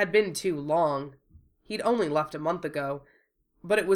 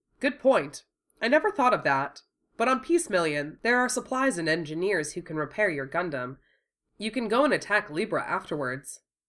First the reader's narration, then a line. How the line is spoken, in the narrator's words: she added kindly